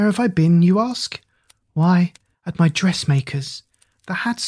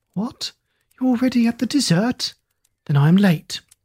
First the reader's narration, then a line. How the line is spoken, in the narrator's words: she exclaimed with a winsome naivete